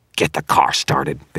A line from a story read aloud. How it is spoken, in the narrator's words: Victor snarled